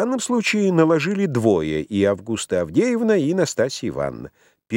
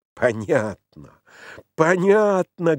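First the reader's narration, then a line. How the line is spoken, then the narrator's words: Forced devilish laugh. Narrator (Russian): говорил я, стараясь выдавить из себя мефистофельский смех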